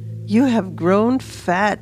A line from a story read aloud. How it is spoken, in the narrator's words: she blurted out with an accusing look in her eye